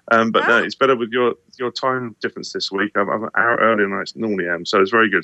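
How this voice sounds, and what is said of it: Hoarse, partly lost voice. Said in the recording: “Apologies for my voice. I've lost my voice this week.”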